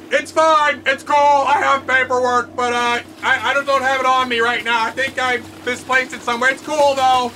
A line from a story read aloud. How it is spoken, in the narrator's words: The man inside Captain Bubble shouts back